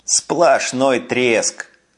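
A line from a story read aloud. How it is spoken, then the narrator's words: Snort. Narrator (Russian): фыркнул связист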